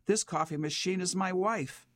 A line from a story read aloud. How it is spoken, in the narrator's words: shouts